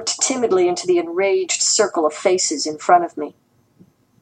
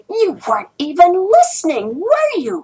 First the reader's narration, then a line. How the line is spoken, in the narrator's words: shouted Yin Lan Lan